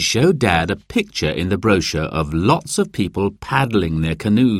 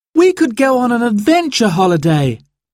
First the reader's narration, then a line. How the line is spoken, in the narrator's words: cried Sarah